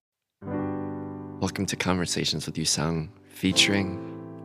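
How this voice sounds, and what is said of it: Whispering. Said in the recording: “I should stop whispering. I feel like I'm probably creeping listeners out.”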